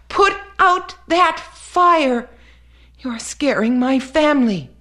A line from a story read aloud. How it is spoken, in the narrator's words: from deep inside the boy came the memory of the language of people, of two-legged humans, and he cried out